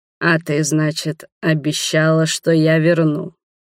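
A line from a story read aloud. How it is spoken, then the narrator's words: Slow. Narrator (Russian): Медленно проговорил Адальхард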